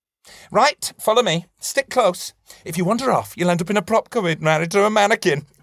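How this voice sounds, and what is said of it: Camp put-on accent. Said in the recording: “I love the choice of the accent as well. I love the campness of that.”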